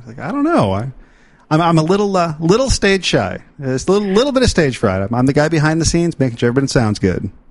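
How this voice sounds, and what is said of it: Great, gorgeous radio voice. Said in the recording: “listen to that voice, people ... what a great voice ... you've got a radio voice, dude ... you got a fabulous voice. Everyone notices it, and it's gorgeous ... You have some mojo going on there in that voice”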